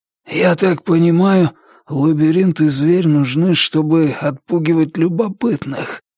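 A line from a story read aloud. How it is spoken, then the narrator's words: Hoarse wheeze. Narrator (Russian): прохрипел маркиз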